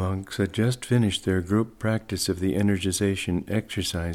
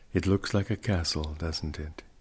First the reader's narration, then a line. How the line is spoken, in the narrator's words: he remarked quietly